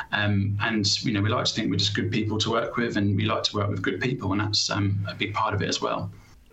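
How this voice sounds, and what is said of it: British accent. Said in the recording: “I'm sensing the accent there ... obviously I'm thinking from the UK”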